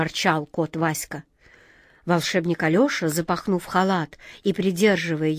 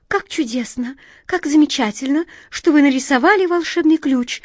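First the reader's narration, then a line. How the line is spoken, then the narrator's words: Excited chirping. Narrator (Russian): взволнованно прощебетала ласточка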